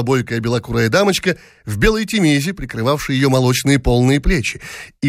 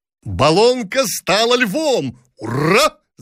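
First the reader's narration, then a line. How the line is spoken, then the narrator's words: Shouting with laughter. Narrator (Russian): закричали офицеры с хохотом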